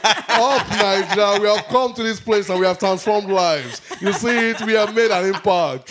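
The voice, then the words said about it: Put-on Nigerian accent. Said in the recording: “I've held my Nigerian accent for too long.”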